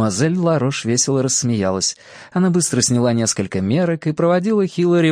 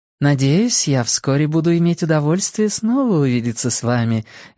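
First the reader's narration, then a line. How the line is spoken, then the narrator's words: Polite tone. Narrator (Russian): вежливым тоном произнесла мадемуазель Ларош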